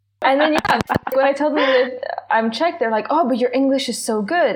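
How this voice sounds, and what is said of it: Hard-to-place international accent. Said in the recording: “I get Australian constantly ... I have such an international accent, you can't actually place where I'm from immediately”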